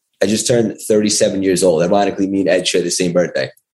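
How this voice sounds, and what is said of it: Strong New York accent. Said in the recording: “You got the strong New York accent. I hear it. ... yours is a lot stronger than me”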